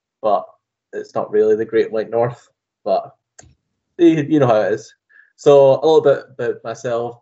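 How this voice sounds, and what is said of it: Scottish accent. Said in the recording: “As you can tell, I have a different accent than Josh. I'm actually from ... Scotland”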